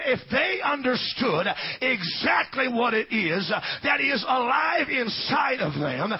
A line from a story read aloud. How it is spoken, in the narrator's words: he said